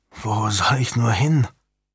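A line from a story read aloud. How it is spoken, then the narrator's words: Murmured. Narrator (German): murmelte Julian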